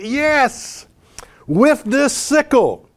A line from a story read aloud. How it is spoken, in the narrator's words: the people shouted